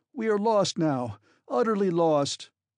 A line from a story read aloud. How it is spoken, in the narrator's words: I cried